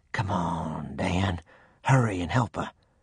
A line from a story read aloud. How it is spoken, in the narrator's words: In a whisper, I said